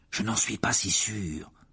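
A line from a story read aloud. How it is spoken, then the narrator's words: Murmured. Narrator (French): murmura Harry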